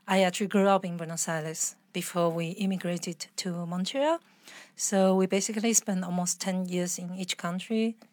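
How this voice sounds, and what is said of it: Spanish accent in English. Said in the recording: “so it's more a Spanish accent, basically. ... It's my it's Spanish accent”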